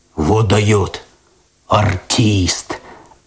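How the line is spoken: Admiring deep bass. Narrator (Russian): Опять восхищенно пробасил кот

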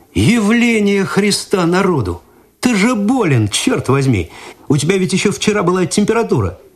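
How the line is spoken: Astonished exclamation. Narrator (Russian): Игорь изумленно … воскликнул

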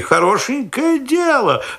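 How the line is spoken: Exclamation. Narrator (Russian): воскликнула она

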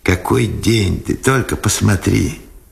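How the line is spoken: Joyful. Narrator (Russian): радостно сказал Сенцов

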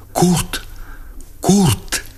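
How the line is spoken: Breathless whispered cry. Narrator (Russian): Увидев мальчишку немца, она вскрикнула задохнувшимся шепотом

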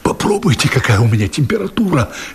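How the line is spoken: Hoarse voice in ear. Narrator (Russian): хрипит на ухо главный герой

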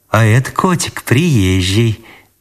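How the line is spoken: Unusually tender tone. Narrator (Russian): неузнаваемо ласково сказала Анисья

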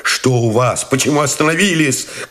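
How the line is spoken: Shouted question. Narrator (Russian): крикнул Новиков

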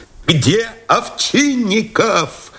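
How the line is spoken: Shouting. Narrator (Russian): закричал Новиков

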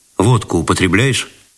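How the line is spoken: Dry question. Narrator (Russian): сухо спросил он

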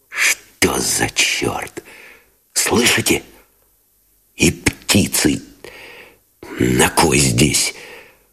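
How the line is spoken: Whispered curse. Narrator (Russian): шепотом выругался Новиков

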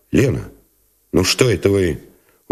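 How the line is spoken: Unsmiling, not tender. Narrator (Russian): не улыбаясь и не говоря ласково

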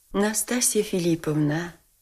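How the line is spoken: Quiet, compassionate. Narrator (Russian): сказал князь тихо и как бы с состраданием

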